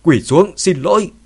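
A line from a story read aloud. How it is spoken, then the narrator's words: Angry shout. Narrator (Vietnamese): ông ta ... giận dữ hét lên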